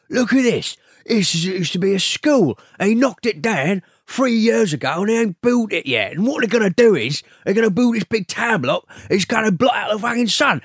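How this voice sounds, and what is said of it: Imitates another person's voice. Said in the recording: “It's actually quite a good impression. ... Bob Hoskins.”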